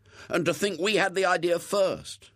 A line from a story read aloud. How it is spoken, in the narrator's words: exclaimed William